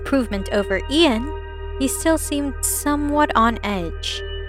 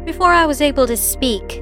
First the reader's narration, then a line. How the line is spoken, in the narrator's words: said loudly